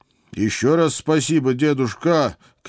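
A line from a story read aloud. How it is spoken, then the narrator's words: Elated shout. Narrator (Russian): крикнул я, чувствуя, как за спиной вырастают крылья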